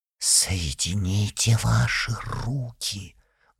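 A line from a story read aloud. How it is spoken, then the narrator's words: Loud commanding whisper. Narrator (Russian): громким шепотом распорядилась графиня Вера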